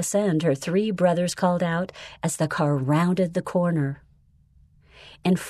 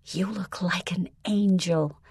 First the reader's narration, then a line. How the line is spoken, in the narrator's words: Mom whispered to Melissa